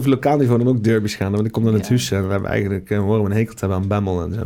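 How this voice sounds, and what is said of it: Heavy rural regional Dutch accent. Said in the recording (Dutch): “dat hele typische Beethovense accent ... Beetje, beetje, beetje, beetje zwaar. Zwaar. ... ben je een boer? Echt een beetje een boer.”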